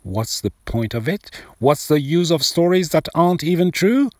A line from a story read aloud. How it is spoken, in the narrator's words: When he heard his father sounding so pathetic, Haroon lost his temper and shouted